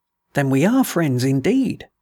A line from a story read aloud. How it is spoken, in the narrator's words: said the voice